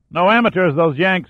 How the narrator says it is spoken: Macklin yelled back

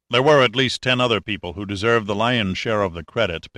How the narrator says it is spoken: Pitt said

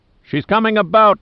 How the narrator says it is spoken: Giordino yelled from above

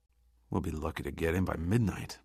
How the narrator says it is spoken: muttered Giordino

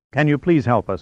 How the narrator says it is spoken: Mancuso asked urgently, insistently

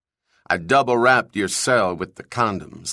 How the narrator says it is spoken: Link said

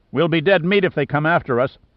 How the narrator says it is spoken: shouted

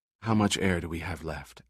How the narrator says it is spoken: asked Summer softly

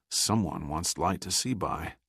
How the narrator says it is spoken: muttered Giordino

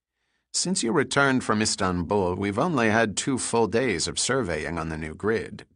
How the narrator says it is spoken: Gunn said

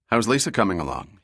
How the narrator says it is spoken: he asked

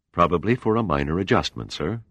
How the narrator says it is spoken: the steward replied

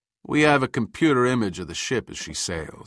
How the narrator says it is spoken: said Giordino

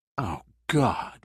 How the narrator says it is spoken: muttered Boozer

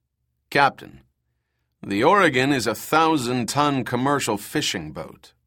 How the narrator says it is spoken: Max lied smoothly

